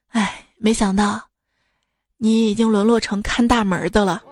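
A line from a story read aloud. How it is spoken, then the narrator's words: Surprised exclamation. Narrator (Chinese): 他也吃惊的，一声感叹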